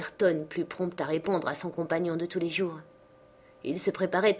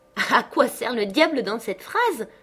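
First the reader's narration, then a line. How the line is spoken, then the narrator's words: Sneering. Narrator (French): dit Linton en ricanant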